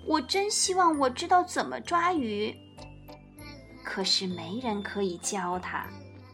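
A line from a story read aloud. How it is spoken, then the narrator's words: Sighing little bear. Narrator (Chinese): 唉，小小熊叹气道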